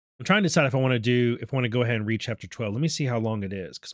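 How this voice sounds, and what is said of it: Strained, sore-throated voice. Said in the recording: “my voice is a little bit, my throat's hurting a little bit, despite the honey. ... I've just been talking a lot lately”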